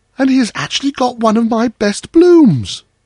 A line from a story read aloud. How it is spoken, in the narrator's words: exclaimed the white rose tree